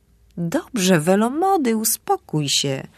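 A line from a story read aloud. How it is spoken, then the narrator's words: Plain. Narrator (Polish): powiedziałem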